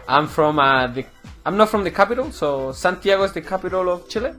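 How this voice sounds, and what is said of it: Chilean accent. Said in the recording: “you're not from around here, you know, based on your accent ... So you're from Chile.”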